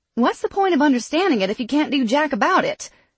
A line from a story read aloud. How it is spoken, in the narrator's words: Sally snapped